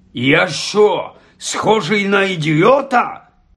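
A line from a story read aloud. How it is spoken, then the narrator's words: Barked. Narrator (Ukrainian): Гаркнув дядько Вернон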